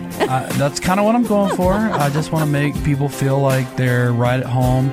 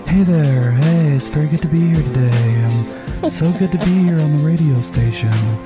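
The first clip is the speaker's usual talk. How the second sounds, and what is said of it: Soothing public-radio announcer voice. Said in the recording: “my radio voice. Whenever I go on radio stations, I have to talk in a different voice ... It feels more like PBS, like NPR ... put them to sleep while they're driving”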